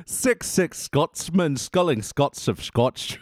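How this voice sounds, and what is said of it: Put-on Scottish accent. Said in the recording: “Oh, wow, in Scottish, nice.”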